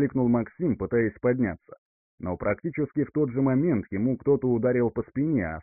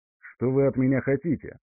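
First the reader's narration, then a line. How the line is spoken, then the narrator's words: Cold, composed question. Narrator (Russian): холодно спросил парень, взяв себя в руки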